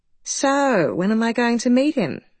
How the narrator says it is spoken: she said on the phone, her tone warm and pleased, sounding just like a normal mother presumably would

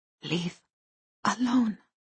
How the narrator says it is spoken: whispered

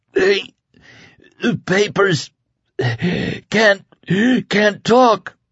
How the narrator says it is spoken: he gasped harshly for air

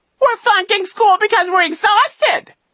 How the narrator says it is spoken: he squealed

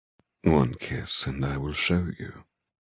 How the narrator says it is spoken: he murmurs

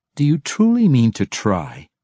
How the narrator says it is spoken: Massage asked, his voice condescending and filled with disbelief

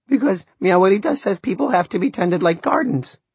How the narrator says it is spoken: Fidelito chirped

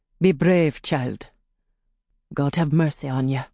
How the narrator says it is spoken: He mumbled into her ear

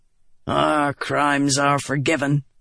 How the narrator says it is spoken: Gaz said with a grunt

